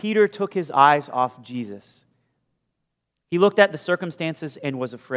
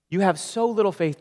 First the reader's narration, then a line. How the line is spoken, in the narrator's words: Jesus said